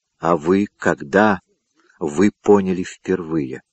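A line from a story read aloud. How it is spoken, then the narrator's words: Quiet question. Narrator (Russian): тихо спросил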